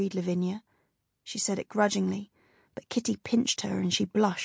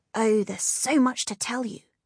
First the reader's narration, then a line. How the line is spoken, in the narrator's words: cried Kitty